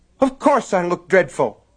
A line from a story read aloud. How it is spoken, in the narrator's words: she snapped